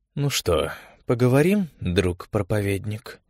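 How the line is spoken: Low chesty voice. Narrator (Russian): сказала Ингера низким грудным голосом

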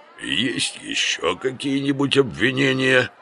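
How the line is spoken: Even, triumphant. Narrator (Russian): ровно спросил Лев, победно

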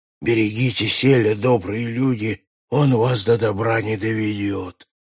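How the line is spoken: Hoarse muttering. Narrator (Russian): красильщик осипшим голосом бормотал

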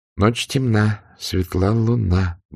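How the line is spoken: Muttering. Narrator (Russian): бормотала анафема

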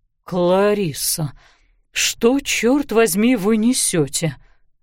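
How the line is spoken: Barely breathed out. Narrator (Russian): еле выдохнул он

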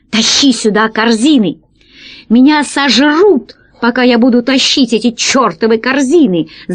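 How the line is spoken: Screaming. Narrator (Russian): завопил весельчак У

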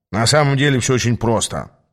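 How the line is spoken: Gloomy mutter. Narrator (Russian): пробурчал по-прежнему немного мрачноватый Ас

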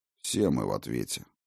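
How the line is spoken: Grumbling. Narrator (Russian): проворчал я

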